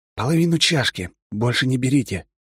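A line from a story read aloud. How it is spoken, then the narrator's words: Whisper. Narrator (Russian): шепнул своим товарищам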